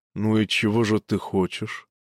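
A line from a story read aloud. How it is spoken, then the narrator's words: Barely audible, strained calm. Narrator (Russian): По-прежнему чуть слышно спросил Михал, и Марта поняла, каких усилий стоит ее брату этот спокойный, тихий голос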